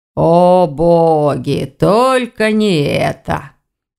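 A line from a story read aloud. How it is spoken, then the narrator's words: Sorrowful groan. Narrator (Russian): горестно простонал Вардван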